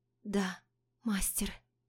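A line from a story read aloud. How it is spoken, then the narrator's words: Barely audible exhale. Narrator (Russian): выдыхает еле слышно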